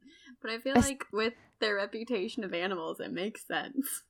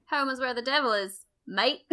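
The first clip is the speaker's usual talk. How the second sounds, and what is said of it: Put-on Australian accent. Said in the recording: “how would you do that in an Australian accent? ... Sorry, Australia. Oh. I'm very American.”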